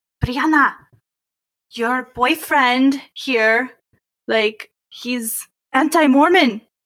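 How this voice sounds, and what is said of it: Put-on Spanish accent. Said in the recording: “she has a Spanish accent.”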